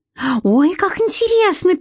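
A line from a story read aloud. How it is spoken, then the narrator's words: Squeaked. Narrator (Russian): пискнула Литка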